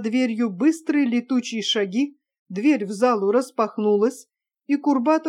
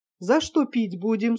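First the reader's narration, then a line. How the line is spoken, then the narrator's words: Plain. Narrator (Russian): спросил Вохрин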